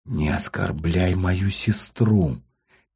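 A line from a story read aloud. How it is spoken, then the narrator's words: Quiet angry hiss. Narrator (Russian): тихо и со злостью прошипела Дарья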